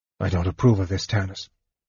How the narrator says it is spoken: he muttered

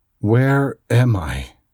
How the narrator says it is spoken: I asked the gray-bearded man in a trembling voice

